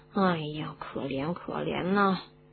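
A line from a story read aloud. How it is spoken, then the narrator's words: Muttering. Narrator (Chinese): 罗恩嘴里还嘟嘟囔囔的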